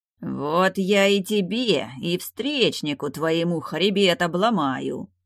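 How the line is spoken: Furious bear-like roar. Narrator (Russian): Будто разъяренный медведь прорычал староста

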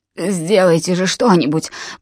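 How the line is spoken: Indistinct mutter. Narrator (Russian): пробормотал он не вполне внятно

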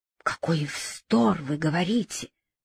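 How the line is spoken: Whisper. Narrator (Russian): прошептал Шталь

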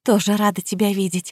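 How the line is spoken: Weak tearful whisper. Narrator (Russian): слабо прошептала, чувствуя, как по щекам текут слезы

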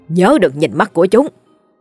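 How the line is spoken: Grandmother shouting loudly. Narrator (Vietnamese): Bà ngoại hét lớn

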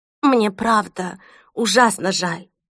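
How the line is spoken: Trembling voice. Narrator (Russian): снова сказала Селеста дрожащим голосом

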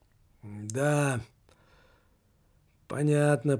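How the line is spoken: Mumbling. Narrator (Russian): пробормотал глава представительства

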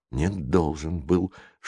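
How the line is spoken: Whispered objection. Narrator (Russian): шепотом возразил Джейсон

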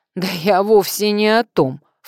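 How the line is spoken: Snorted. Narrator (Russian): фыркнула Катька

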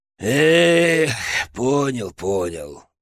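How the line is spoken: Sigh. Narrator (Russian): вздохнул Петрович

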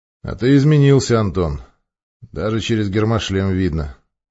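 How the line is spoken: Calm voice, military officer. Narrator (Russian): спокойно произнес майор

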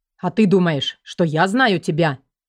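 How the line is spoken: Barked heartily. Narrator (Russian): рявкнул Мир от души

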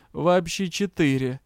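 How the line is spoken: Cheerful admission. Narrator (Russian): весело сознался Риан

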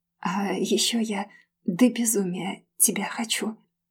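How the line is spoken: Soft whisper. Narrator (Russian): тихо прошептав

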